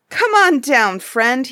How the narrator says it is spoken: he cried

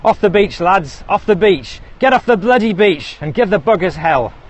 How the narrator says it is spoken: Captain Chambers was shouting

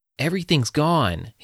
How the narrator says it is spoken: he yelled

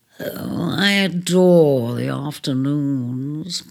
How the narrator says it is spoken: purred Leone

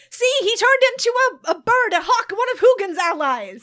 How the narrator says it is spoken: everyone is screaming again as Vesperia is shouting

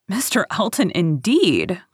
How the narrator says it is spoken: cried Harriet indignantly

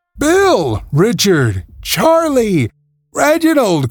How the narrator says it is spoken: cried the children in chorus

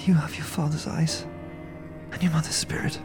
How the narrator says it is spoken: she murmurs, a touch of fragile caress

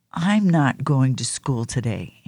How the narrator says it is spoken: Andrew said

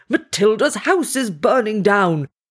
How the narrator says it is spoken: roaring

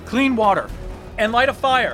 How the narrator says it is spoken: Vash yelled out

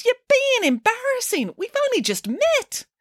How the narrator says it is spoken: exclaimed the princess

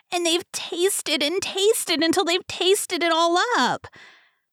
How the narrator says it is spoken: squealed the Baby Bear

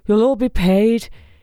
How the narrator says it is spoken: shouted

